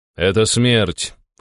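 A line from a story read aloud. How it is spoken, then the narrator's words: Cold. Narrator (Russian): холодно произнес я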